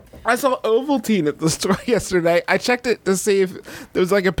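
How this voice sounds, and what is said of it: Usual voice. Nothing is said of it.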